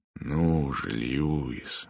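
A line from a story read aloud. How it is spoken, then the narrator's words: Gentle. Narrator (Russian): мягко сказал он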